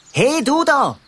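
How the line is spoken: Sudden call. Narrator (German): ruft er plötzlich

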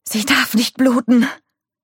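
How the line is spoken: Gasping. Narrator (German): keuchte Nick

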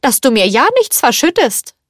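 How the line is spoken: Called out. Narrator (German): rief Madame Potin

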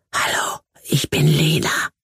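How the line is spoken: Whispering. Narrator (German): flüsterte sie

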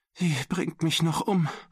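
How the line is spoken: Whimpering. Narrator (German): wimmerte Mac

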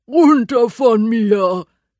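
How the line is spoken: Growling. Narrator (German): knurrt er

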